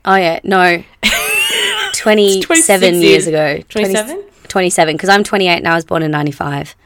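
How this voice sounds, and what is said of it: Hoarse voice recovering from voice loss. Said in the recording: “as you guys can hear, I lost my voice recently. So, I'm just getting used to talking again”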